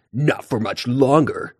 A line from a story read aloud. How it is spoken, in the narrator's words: Tiger Claw growled